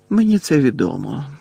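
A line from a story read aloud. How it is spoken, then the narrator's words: Heavy sigh. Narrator (Ukrainian): важко зітхнув Дамблдор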